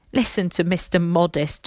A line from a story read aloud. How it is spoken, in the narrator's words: Tommy laughed